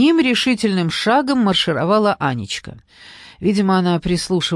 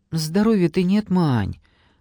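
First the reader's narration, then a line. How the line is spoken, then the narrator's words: Timid excuse. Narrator (Russian): робко оправдалась Маруся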